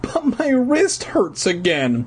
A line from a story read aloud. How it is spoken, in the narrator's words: my brother whined